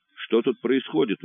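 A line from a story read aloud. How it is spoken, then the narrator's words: Indignant. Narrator (Russian): возмущенно начал он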